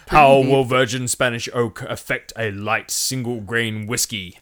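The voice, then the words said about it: Exaggerated deep voice. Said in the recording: “I started to do a deep voice ... I'll go back to my original deep voice.”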